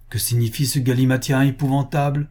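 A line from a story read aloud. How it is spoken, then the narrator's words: Exclaiming caliph. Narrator (French): s'écria le calife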